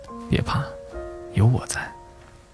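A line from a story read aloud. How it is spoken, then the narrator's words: Soft, gentle. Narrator (Chinese): 轻声道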